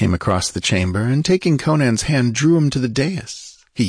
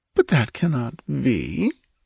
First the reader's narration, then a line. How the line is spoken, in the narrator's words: she murmured